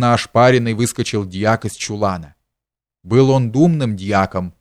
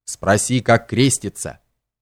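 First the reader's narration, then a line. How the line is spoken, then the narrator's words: Menacing. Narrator (Russian): грозно сказал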